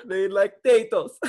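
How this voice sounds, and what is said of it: Bad put-on foreign accent. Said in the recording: “What accent is that again?... one of those really bad Italian accents? Because it sounds like you're saying the potatoes”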